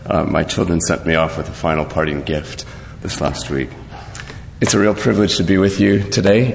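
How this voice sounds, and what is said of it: Deep, congested voice. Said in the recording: “you'll have to forgive the James Earl Jones impersonation here with my cold today”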